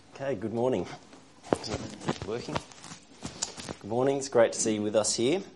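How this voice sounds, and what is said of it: Croaky, hoarse voice. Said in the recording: “excuse my voice this morning. It's a bit croaky. I think it sounds worse than I feel”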